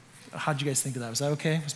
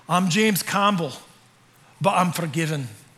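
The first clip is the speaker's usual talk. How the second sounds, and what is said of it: Put-on Scottish accent. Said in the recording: “Was my accent okay? Yeah, I had a little bit of practice”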